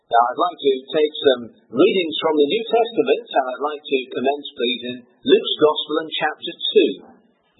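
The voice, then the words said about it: Foreign regional accent. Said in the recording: “I hope that my accent doesn't cause too much consternation, that you can follow me, somebody from south of the border”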